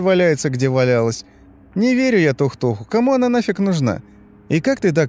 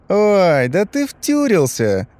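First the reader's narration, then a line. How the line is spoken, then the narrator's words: Teasing realization. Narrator (Russian): догадался Костя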